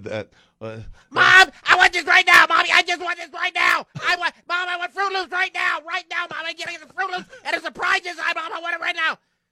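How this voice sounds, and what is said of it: Whiny child's voice. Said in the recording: “impersonation of a kid”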